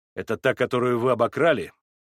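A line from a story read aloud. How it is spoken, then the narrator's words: Rude, unrestrained question. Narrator (Russian): грубо спросил я, не желая более сдерживаться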